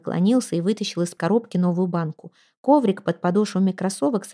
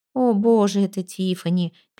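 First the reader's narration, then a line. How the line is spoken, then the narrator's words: Sad. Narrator (Russian): печально сказала она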